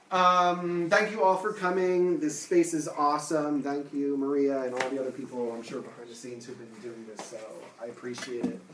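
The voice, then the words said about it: New Jersey accent, fast speech. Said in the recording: “you can't tell from my accent ... I'm from New Jersey, and I speak quickly”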